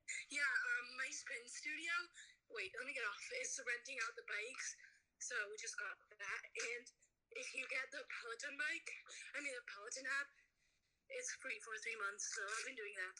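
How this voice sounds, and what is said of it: Out of breath speech. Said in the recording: “I'm out of breath... You're like straight up sweating.”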